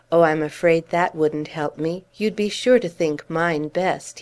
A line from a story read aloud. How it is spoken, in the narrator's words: he said with a laugh